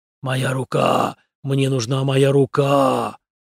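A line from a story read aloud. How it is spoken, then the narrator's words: Gurgling hoarse mutter. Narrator (Russian): журчащим, хриплым голосом он пробормотал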